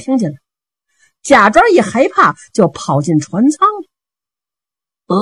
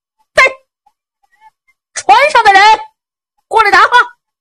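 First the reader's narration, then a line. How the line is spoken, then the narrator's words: Loud shouting. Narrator (Chinese): 陆青高声喊嚷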